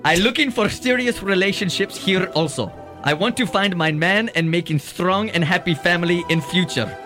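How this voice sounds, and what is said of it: Put-on foreign accent. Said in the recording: “This is so surreal with his accent”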